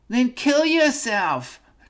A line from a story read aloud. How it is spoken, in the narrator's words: cried Miss Hollywood